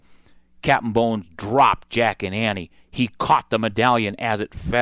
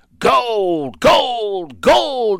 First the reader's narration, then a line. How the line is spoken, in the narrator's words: he cried